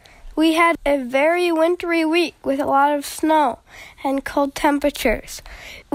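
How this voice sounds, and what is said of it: Slightly goofy-sounding voice. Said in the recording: “my voice sounds a little bit goofy, it's because I'm just getting over a cold”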